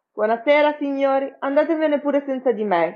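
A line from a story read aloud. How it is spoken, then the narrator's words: Shout. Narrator (Italian): gridò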